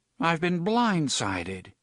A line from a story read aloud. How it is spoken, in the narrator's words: Cuthbert said sadly